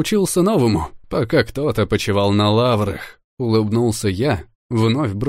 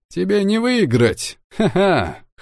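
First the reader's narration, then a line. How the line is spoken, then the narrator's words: Gloating laugh. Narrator (Russian): хохотнул я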